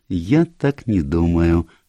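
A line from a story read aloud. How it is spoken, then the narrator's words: Gentle objection. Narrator (Russian): мягко возразил Эркюль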